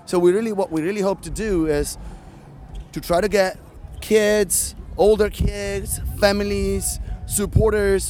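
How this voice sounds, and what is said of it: Italian accent. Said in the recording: “I'm from Italy, actually, so I'm not from the States, as you can hear from my accent.”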